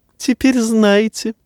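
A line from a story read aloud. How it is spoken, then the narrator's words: Giggling remark. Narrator (Russian): заметил, хихикнув, Варис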